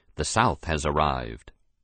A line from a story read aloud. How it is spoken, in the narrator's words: a reporter would whisper to his fellows